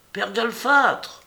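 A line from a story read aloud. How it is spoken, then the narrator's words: Voice shouting. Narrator (French): cria une voix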